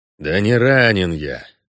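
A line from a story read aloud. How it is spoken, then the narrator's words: Grumbling with a hiss. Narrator (Russian): пробурчал Геральт, морщась и шипя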